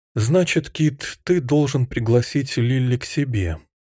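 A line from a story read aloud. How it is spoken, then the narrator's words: Sad, mother's voice. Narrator (Russian): мама грустно произнесла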